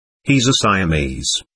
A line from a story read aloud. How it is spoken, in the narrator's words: replied